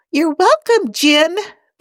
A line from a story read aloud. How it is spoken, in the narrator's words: the computer says with a familiar squeak